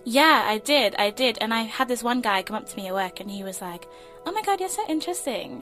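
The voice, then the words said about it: British accent. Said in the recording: “you have this whole, like, British accent going on”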